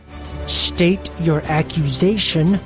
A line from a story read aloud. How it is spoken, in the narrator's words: ordered through clenched teeth